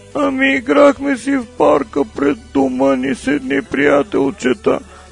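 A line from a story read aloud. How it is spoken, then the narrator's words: Child sobbing. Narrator (Bulgarian): продължил да хлипа гласът на сина й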